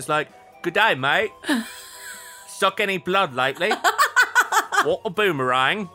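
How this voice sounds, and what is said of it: Put-on Australian accent. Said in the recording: “talk with like a Barovian Australian accent.”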